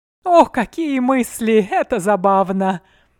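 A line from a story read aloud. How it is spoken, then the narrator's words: Laughing. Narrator (Russian): рассмеялся Арсини, удивленно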